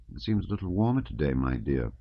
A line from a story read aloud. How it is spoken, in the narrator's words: she would murmur